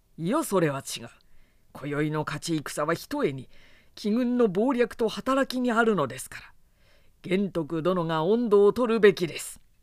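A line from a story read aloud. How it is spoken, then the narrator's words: Deferential, yielding. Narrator (Japanese): と曹操も譲り合う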